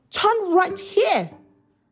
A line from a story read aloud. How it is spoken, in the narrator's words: shouts Baji